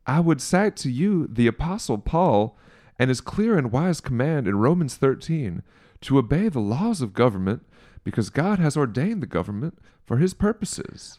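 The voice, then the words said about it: Put-on Southern accent. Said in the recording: “why did Jeff Sessions sound like Lindsey Graham? ... That's my only Southern accent that's even remote.”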